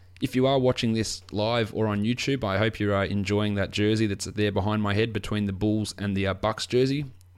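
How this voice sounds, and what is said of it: Slightly croaky voice. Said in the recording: “my voice feels a little bit, my voice sounds a little bit croaky, because I have been at the footy today and have been screaming relatively loudly”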